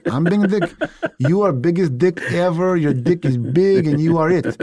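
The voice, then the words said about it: Put-on Russian accent. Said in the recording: “I can do a Russian accent.”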